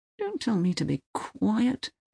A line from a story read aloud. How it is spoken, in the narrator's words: mumbles Uwe